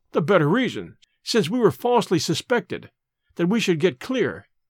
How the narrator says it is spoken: I cried

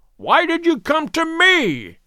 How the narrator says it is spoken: He cried

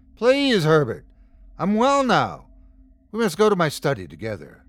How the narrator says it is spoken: the thing called out to me, pleading, still speaking in Lawrence's voice

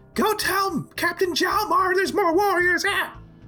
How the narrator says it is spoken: she yells

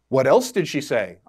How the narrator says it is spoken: I asked

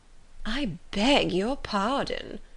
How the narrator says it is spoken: replied Miss Bingley, turning away with a sneer

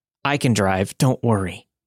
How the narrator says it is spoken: she choked out

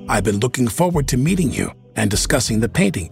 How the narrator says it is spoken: Anne said cheerfully

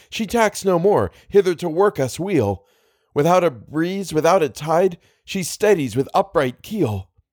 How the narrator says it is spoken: I cried

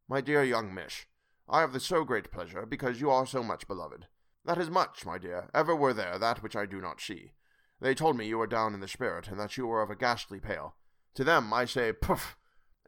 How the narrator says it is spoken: he went on

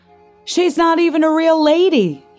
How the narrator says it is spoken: shouted

